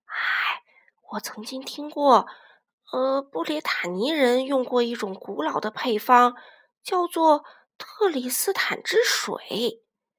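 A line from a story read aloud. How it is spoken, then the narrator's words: Mysterious low whisper. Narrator (Chinese): 佩罗神秘兮兮的在他们耳边低声说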